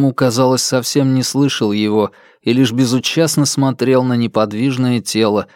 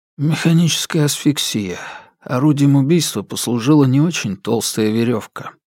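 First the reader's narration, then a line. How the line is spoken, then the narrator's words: Quiet. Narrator (Russian): тихо произнес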